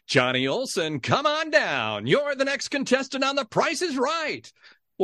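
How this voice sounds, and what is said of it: Game show announcer voice. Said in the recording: “as clearly and as in my best announcer voice”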